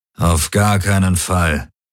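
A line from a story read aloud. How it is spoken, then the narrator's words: Growling. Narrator (German): knurrte Darajos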